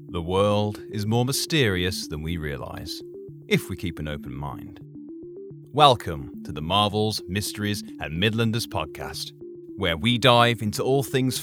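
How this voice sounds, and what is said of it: British accent. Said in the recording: “a wonderful British accent”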